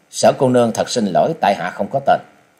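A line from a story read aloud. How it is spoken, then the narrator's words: Cold. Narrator (Vietnamese): chàng lạnh lùng nói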